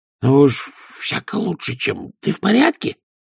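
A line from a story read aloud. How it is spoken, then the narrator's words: Hissed reply. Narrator (Russian): прошипел в ответ Овс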